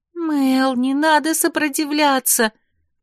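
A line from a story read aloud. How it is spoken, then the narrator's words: Pleading, frightened exclamation. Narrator (Russian): умоляюще воскликнула Вера, со страхом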